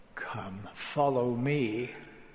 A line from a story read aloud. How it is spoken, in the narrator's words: pleadings of Jesus Christ when he beckons